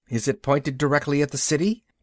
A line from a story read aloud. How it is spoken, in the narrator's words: Mara asked anxiously